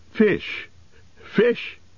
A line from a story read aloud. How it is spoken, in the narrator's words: he cried